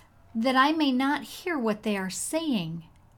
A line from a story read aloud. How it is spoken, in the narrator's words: he cried